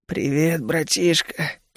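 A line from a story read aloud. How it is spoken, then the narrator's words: Hoarse rasp. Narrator (Russian): прохрипел я в ответ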